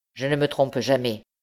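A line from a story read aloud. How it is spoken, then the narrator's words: Curt, dry. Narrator (French): répondit sèchement l'usurier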